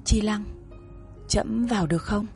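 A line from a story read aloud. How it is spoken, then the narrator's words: Soft. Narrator (Vietnamese): Hắn nói khẽ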